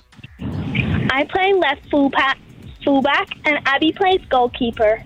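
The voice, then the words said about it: American Southern accent. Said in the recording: “You're American. Bit of an accent there. ... I'm from Louisiana. ... I feel like that accent really grew as the conversation went on.”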